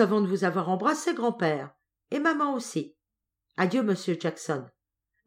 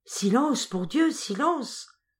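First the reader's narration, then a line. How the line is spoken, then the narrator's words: Low voice. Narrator (French): lui dit Jackson à voix basse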